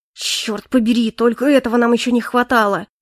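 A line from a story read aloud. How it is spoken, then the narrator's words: Hissed through teeth. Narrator (Russian): прошипел Моррис сквозь зубы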